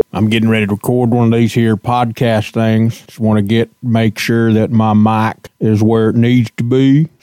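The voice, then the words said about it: Silly funny put-on voice. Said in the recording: “Why I gotta use a funny voice, but I am ... just sitting around speaking in a silly voice”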